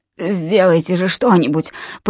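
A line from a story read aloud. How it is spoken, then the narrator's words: Indistinct mumble. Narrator (Russian): пробормотал он не вполне внятно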